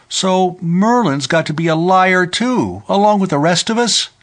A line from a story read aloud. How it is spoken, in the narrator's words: Sylvie cried